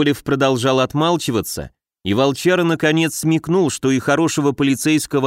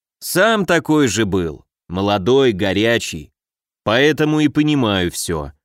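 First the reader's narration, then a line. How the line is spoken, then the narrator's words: Almost fatherly tone. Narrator (Russian): продолжил он уже чуть ли не отеческим тоном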